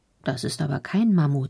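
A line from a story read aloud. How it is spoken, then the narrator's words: Plain. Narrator (German): sagt er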